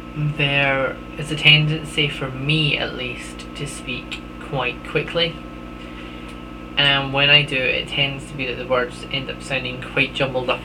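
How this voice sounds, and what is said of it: Broad Scottish accent, speaking slowly. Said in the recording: “a new accent, how I used to sound... if you think I'm speaking a tad slowly, that's because I actually am... with this accent, my Scottish accent”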